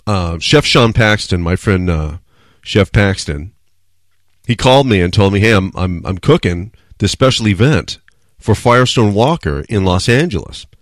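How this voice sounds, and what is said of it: Strained, unwell-sounding voice. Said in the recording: “I'll just wait until my voice is better ... I apologize if my voice sounds stupid”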